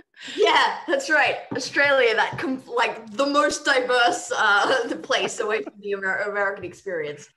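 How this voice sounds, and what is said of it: Australian accent. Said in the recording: “you're from Australia ... Foreign accent.”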